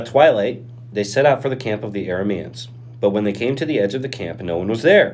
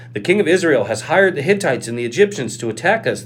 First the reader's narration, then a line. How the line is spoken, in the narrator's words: cried to one another